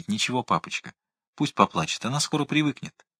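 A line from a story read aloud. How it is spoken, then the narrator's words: Quiet. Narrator (Russian): Светик ... стал тихо говорить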